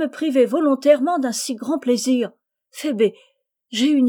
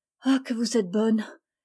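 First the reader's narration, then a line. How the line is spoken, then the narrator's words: Murmuring. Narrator (French): murmura Phébé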